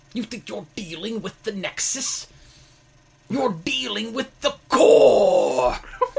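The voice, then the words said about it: Imitates another person's voice. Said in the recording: “What is that voice? ... That was my super accurate Wade Barrett. ... you thought Wade Barrett was in the room with you”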